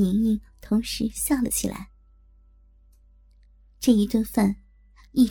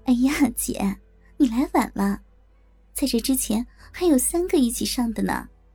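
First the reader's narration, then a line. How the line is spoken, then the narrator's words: Laughing. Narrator (Chinese): 小春笑着说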